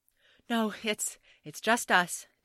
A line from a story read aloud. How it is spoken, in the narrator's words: David gasped